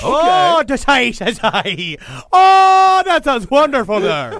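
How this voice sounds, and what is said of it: Terrible put-on Irish accent. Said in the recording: “the Irish... you broke the noise machine. You literally broke sound with that terrible accent.”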